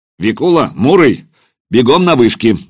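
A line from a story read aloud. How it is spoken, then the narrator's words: Barked command. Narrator (Russian): гаркнул Кулиба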